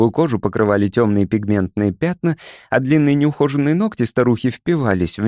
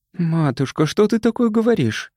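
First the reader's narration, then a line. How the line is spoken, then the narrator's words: Frightened. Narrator (Russian): испуганно произнесла Розет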